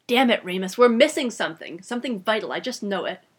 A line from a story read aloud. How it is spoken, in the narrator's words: Bill growled into the fireplace